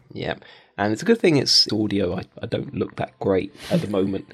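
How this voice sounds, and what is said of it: Nasal, congested voice. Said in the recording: “You sound a bit nasal. ... I've got a little bit of a cold.”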